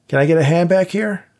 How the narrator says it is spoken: Dave shouted

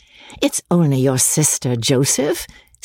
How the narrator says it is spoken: said Amelia, laughing

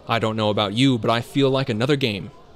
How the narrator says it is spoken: Julian exclaimed

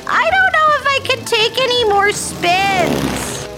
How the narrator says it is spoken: Helena shouted

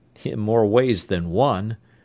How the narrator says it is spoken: Tom chuckled

